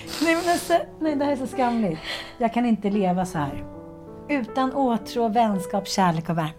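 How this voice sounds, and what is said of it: Exaggerated dramatic reading voice. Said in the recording (Swedish): “Drama Queen ... med rätt röst”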